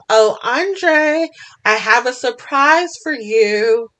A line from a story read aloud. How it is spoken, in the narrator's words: screaming